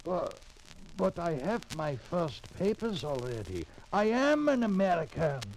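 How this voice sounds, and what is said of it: Foreign accent, non-American English. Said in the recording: “With that accent? ... Americans talk like me. Good, plain USA talk.”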